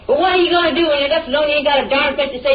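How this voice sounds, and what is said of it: Yelling, angry raised voice. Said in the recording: “why you're yelling at me”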